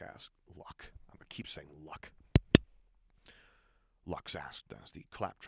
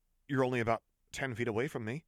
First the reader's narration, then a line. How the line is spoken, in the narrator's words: Lux said uneasily